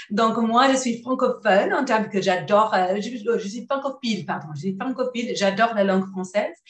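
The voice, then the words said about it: Slight non-native French accent. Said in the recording (French): “je ne suis pas française ... je parle avec un petit accent”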